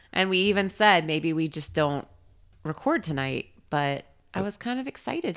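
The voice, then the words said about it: Congested voice from a cold. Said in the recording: “you can probably tell from my voice I have a pretty crazy cold right now”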